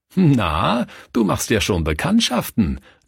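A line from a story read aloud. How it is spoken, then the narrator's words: Laughing. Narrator (German): lachte Schwester Mathilde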